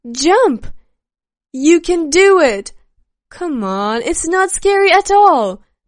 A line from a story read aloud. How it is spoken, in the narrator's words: shouts and words of support